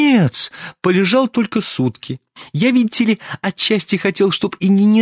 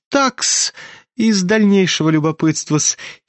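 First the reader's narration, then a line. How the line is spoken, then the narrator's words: Sudden giggle. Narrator (Russian): хихикнул вдруг Лебедев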